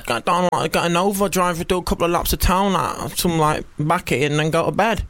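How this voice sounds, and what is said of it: Impression of a stereotyped chav. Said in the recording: “that's my impression of a Kev”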